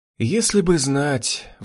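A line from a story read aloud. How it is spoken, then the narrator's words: Sighing. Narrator (Russian): вздохнула Лилия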